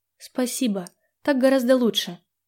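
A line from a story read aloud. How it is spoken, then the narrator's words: Uncertain whisper. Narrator (Russian): неуверенно прошептала она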